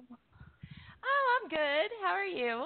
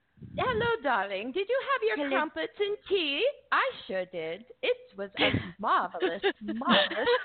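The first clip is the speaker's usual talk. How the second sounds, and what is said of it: Put-on English accent. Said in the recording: “trying to get that English accent”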